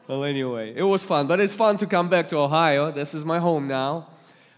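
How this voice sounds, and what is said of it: Russian accent. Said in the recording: “you might detect a little accent ... Russian accent”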